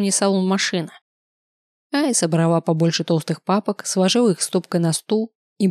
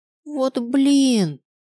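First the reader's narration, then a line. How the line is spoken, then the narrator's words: Moan. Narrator (Russian): простонала она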